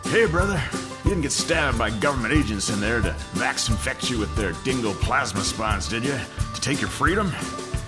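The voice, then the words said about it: Aggressively friendly character voice. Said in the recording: “He asked me this in an aggressively friendly tone of voice.”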